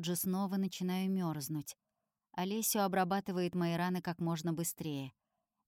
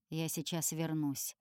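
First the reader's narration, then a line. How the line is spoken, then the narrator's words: Muttering. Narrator (Russian): бормочет архангел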